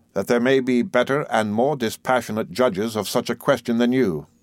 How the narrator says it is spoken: Murdstone, in a low, grave voice

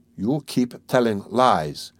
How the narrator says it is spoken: he said slowly and weakly

